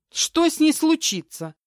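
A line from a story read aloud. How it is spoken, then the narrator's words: Exclamation. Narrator (Russian): воскликнула Тамара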